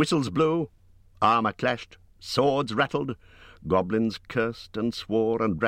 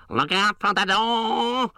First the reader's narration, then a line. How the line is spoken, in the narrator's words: bellowed the captain